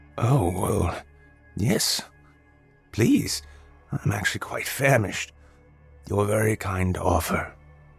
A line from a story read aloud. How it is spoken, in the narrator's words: he replied, his voice somewhat hoarse and scratchy